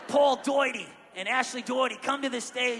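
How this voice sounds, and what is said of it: Poor put-on Australian accent. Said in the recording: “I'm really bad at doing an Aussie accent. I know, it sounds like Jersey and Aussie together.”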